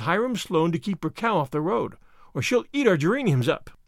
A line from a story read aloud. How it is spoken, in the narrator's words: laughed